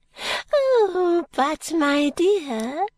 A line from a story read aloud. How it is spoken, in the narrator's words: she said gaily